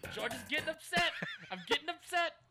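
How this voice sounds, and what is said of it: George Costanza impression. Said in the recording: “my George Costanza impression”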